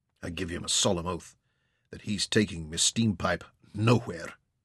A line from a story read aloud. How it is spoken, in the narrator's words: Jock growled